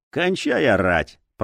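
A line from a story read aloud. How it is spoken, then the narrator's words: Grumbling. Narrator (Russian): проворчал представленный детектив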